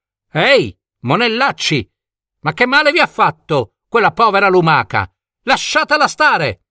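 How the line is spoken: Young man shouting. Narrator (Italian): il giovane Crispillo gridò

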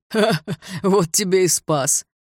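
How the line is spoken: Mocking laughter. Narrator (Russian): расхохотался второй

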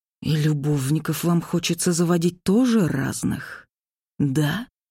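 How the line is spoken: Angry, jealous whisper. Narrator (Russian): Зло и очень ревниво прошептал он

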